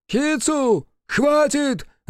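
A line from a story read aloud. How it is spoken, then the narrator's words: Shout. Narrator (Russian): закричал Фуэ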